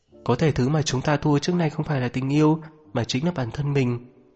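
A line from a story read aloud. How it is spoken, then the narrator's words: Muttering. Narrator (Vietnamese): lẩm bẩm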